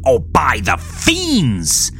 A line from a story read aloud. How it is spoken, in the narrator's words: shouted the monster